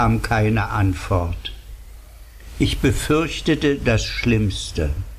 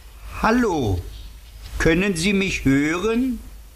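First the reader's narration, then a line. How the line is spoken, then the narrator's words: Calling out. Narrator (German): Ich beugte mich über ihn und rief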